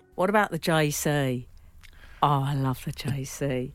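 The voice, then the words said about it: Put-on London accent. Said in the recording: “that's her accent I'm doing ... That's how people speak in London.”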